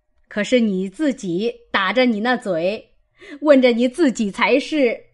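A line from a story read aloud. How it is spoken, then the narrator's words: Laughing. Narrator (Chinese): 贾母笑道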